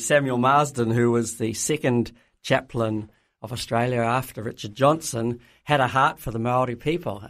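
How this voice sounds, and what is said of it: New Zealand accent with twang. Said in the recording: “a little bit of a twang in your accent ... out of this Australian mission context came missionaries that went on to New Zealand”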